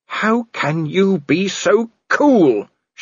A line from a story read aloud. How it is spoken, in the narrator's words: snarled